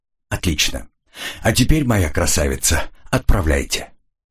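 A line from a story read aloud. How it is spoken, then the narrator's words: Snort, then plain. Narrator (Russian): хмыкнул и сказал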